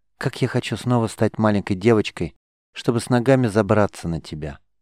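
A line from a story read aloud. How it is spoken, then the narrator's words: Whisper in ear. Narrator (Russian): прошептала ему на ухо Сафи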